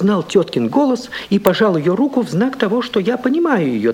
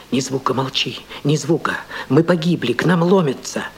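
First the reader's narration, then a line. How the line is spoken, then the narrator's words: Trembling whisper in ear. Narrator (Russian): на ухо трепетный голос шептал мне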